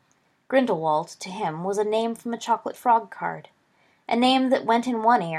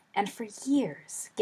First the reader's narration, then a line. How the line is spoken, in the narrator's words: Gideon whispered